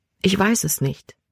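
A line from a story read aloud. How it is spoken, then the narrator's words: Quiet. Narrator (German): sagte sie leise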